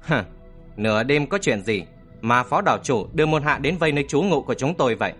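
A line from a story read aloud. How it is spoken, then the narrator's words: Sarcastic, firm. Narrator (Vietnamese): với giọng mỉa mai, Trầm Kha cất giọng cứng rắn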